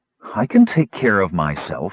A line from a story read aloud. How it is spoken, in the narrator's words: said coolly